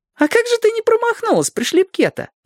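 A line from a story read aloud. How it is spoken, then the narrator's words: Giggling. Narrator (Russian): хихикнул Зорко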